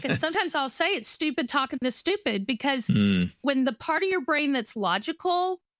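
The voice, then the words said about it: Texas accent. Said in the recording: “my Texas accent full on”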